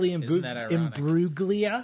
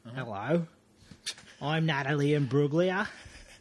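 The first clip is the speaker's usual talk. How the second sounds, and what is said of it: Poor put-on Australian accent. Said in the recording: “She's an Aussie. ... That's a horrible accent.”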